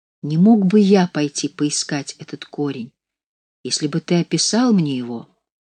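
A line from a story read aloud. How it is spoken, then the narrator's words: Timid question. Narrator (Russian): Кнехт робко спросил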